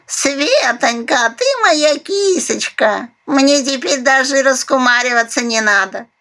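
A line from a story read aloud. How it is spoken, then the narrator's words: Happy cooing parrot. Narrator (Russian): Счастливо проворковала попугаюха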